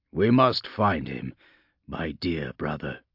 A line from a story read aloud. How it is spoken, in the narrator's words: he said quietly